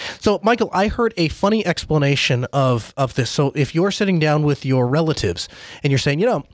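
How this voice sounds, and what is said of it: Usual voice. Nothing is said of it.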